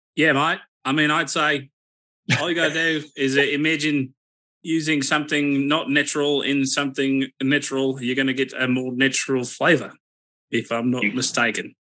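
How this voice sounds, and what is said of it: Put-on Australian accent. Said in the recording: “that's my best Australian accent”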